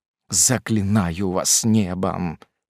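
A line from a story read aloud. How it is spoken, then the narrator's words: Old man moaning. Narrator (Russian): простонал старик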